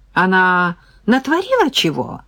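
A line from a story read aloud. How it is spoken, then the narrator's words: Woman's cheerful question. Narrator (Russian): радостно осведомилась баба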